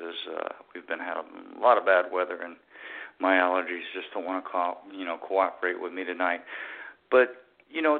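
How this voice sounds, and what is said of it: Slightly hoarse voice. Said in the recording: “Pardon my voice this evening. It's a little hoarse”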